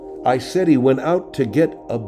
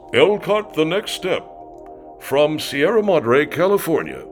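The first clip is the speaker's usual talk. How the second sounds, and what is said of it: Exaggerated announcer voice. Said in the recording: “my announcer voice”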